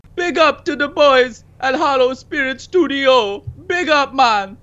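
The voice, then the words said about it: Put-on Rastafarian accent. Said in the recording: “Why are you doing a Rastafari accent? ... You can just talk like a normal human being when you do it. You don't have to be in character again.”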